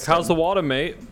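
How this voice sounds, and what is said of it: Put-on Australian accent. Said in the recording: “that accent”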